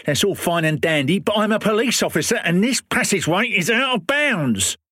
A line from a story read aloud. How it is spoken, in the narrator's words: shouted Pym